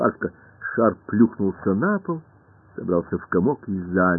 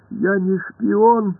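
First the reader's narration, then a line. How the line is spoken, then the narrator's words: Pleading. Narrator (Russian): взмолился мяч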